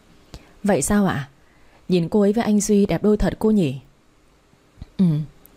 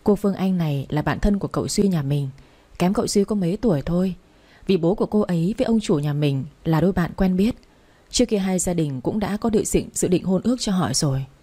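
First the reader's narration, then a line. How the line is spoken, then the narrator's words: Very soft, sad whisper. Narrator (Vietnamese): Cô Anh nghe tôi nói vậy thì càng buồn hơn, thủ thỉ thật nhỏ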